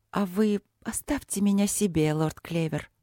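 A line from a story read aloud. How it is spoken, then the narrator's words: Purring. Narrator (Russian): мурлыкнула Софи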